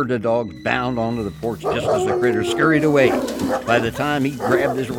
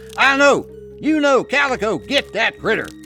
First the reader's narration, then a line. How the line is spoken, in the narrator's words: He called out to his dogs